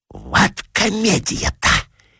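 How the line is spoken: Whispered. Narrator (Russian): шепнула Филисата Михайловна своей соседке

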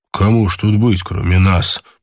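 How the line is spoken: Grumbling. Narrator (Russian): проворчал Боб

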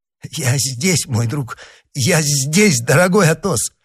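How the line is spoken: Unsteady mumble. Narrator (Russian): пробормотал, чуть не шатаясь, Д'Артаньян

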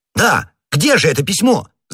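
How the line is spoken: Shouted. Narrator (Russian): закричал Д'Артаньян

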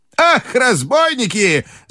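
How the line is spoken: Female cry. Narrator (Russian): закричала она

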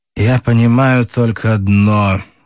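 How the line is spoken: Muffled, hollow voice. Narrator (Russian): глухо сказал Рощин

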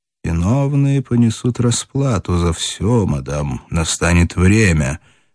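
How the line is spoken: Quiet, in German. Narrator (Russian): негромко сказал он по-немецки

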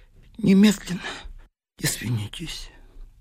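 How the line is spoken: Quiet, nervous. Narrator (Russian): нервно кусая губы, тихо сказал

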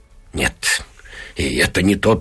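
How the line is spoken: Muttering. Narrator (Russian): бормочет она

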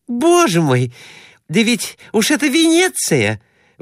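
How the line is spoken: Exclaimed. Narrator (Russian): воскликнула она

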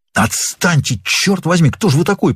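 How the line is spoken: Hissed. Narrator (Russian): прошипел Норман

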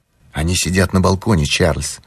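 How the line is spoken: Stranger whispering. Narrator (Russian): шепнул один из незнакомцев

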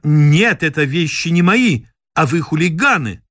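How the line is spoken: Woman shouting. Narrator (Russian): она кричала

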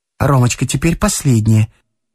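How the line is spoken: Hurried, sad and anxious. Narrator (Russian): сказала Александра Петровна торопливо, но с печалью и тревогой в голосе

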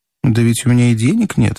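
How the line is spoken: Calm. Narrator (Russian): отвечал спокойно

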